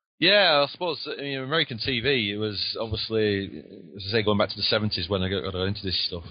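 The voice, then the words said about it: Lancashire English accent. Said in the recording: “if he sounds a little different than my southern sound ... I've got the Lancashire accent.”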